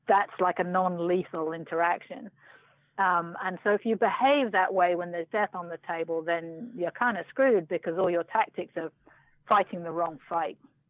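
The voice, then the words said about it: British accent. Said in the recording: “I'm kind of thrown off by the British accent.”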